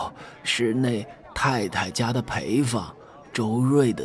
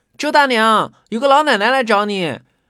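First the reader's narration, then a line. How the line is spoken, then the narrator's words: Child's loud call. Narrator (Chinese): 那小孩……大声叫道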